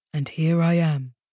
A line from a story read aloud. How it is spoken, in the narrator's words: Matthias murmured